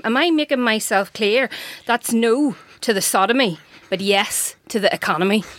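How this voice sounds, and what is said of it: Put-on regional accent. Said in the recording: “Literally the only person on this podcast who can do a proper accent from any country in the world”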